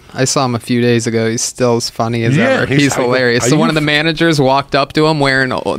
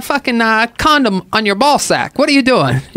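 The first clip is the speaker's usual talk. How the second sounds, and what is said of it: Bad impression, voice pitched higher. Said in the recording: “the worst Schubert impression ever in my life ... you made your voice higher.”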